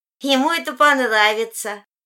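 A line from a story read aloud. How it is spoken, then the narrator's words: Cheerful reply. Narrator (Russian): весело отвечает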